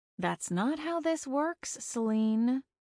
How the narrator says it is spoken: I replied, keeping my voice low

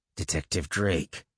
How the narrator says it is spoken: I said through clenched teeth

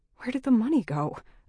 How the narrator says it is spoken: I mumbled

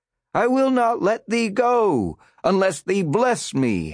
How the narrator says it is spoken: howled the preacher

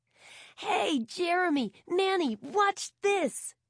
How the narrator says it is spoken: George called out

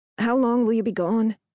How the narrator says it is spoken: asks, her voice pained

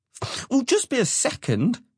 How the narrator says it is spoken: Flair snapped

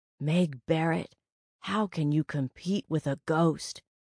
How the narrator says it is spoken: I told myself, a nagging, green-eyed monster whispered

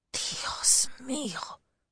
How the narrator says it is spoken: Alberto whispered, eyes huge

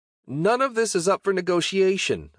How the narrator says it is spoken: I shouted

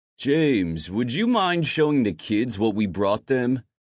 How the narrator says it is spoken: Finn asked loudly

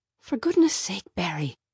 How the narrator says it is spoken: whispered Mom

